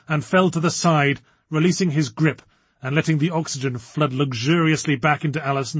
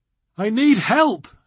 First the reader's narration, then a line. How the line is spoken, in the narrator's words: she gasped